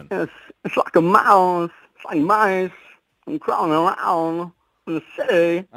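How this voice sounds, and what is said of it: Christopher Walken impression. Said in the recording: “really great impression. ... brilliant. ... Christopher Walken. ... a Walken impression”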